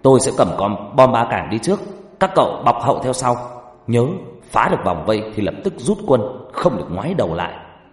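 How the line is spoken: Firm determined shout. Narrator (Vietnamese): cau mày kiên định rồi hét lên

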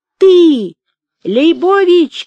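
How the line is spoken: Shouted from a crowd. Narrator (Russian): кричали из толпы, кажется, толстенький

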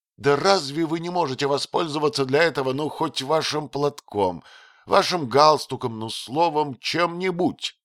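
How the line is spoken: Vexed exclamation. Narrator (Russian): досадливо воскликнула она

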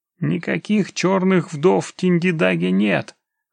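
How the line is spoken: Hoarse, nervous. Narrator (Russian): хрипло проговорил Абдулла, нервно сглатывая слюну

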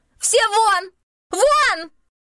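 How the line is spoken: Shrill market-woman screech. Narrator (Russian): Завопила, как базарная торговка, у которой воришки увели копченый окорок

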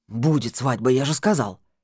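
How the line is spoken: Curt displeased voice. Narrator (Russian): Отрывистым недовольным голосом сказал Скороход

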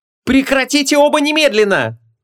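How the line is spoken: Frantic shriek. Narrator (Russian): Бешено завизжала Ванесса, поняв, что сейчас может произойти кровопролитие

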